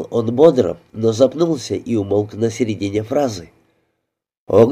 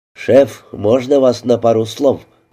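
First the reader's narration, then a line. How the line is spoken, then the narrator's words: Gruff mutter. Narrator (Russian): буркнул он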